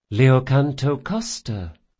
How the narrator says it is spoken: she said in a pleasant, even voice

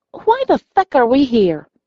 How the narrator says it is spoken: I say crossly

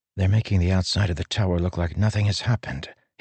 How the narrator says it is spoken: he whispered to Syl

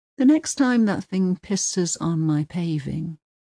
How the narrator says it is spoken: he says coolly

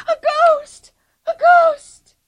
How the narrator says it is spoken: Anika shrieked with him

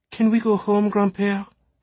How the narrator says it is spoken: Sophie begged, feeling tired

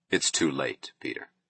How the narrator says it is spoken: he said gently

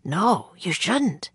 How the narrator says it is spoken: Jack whispered

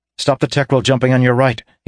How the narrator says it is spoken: he said quickly

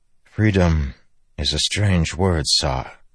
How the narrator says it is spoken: Kaladin said softly

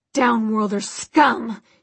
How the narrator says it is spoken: he spat

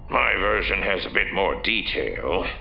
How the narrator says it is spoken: Bakif growled

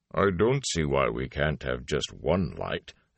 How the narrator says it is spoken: the Ogier grumbled

